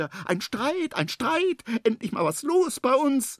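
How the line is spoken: Excited repeated shouting. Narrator (German): Das kleine Känguru hüpft aufgeregt hin und her und ruft immer wieder

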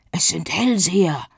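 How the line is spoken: Mooncalf murmur. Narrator (German): raunte das Mondkalb Diego zu

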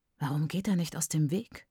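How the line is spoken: Murmured. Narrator (German): murmelt Leon

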